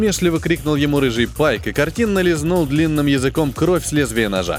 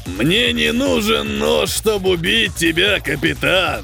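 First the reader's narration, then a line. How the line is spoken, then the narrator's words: Pirate's mocking growl. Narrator (Russian): Насмешливо прорычал пират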